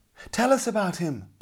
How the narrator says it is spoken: begged the boys

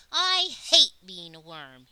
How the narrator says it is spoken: he screeched, his tiny body trembling

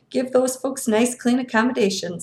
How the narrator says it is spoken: he chuckled

